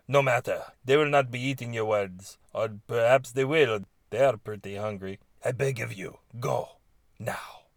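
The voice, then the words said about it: Weak put-on Spanish accent. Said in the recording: “He spoke with a Spanish accent ... is this even a Spanish accent? I'm not very good at it.”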